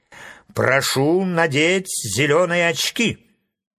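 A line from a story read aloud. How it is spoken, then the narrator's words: Stern. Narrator (Russian): строго сказал Фарамант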